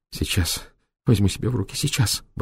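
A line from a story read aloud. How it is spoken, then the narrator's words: Muttering. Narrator (Russian): бормотала она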